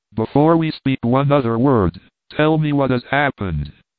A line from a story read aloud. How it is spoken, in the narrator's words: exclaimed impetuously